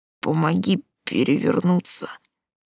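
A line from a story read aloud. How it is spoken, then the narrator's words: Hoarse breathed gasp. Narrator (Russian): хрипло выдохнул он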